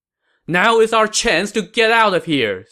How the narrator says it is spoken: Sima Yi shouted

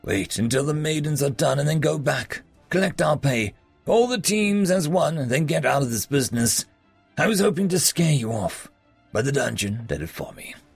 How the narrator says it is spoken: Ivan chuckled

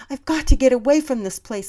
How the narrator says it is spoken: I cried out as if I needed help

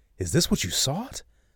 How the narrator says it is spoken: Lavish exclaimed and could not contain the glee from lacing his words

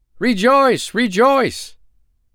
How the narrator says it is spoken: cried the three

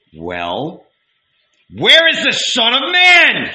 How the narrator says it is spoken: He shouted

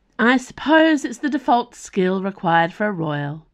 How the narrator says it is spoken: said Nimue, wistfully

